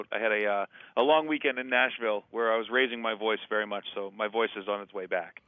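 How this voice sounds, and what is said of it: Slightly hoarse, scratchy voice. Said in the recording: “Are you a little sick? ... I'm just a little scratch in my throat.”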